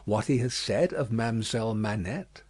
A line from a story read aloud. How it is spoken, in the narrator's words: said Defarge in a low voice